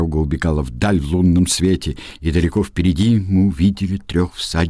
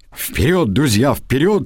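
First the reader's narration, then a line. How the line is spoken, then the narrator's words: Exclaiming again. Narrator (Russian): снова воскликнул я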